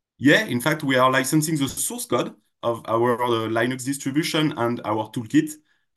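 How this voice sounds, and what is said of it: French accent. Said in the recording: “you're based in France based on that accent”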